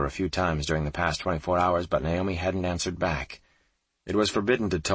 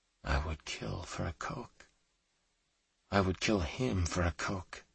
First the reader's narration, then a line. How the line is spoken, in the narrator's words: she whispered to herself